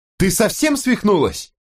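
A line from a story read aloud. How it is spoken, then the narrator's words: Yelling. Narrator (Russian): заорала Кэти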